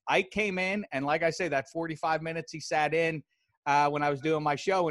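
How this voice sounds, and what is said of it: Pittsburgh accent. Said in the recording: “listen to my dumb voice. Right. I sound like a lot of people from Pittsburgh”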